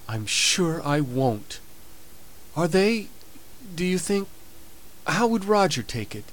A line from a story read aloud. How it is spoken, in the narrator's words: asked Molly, very timidly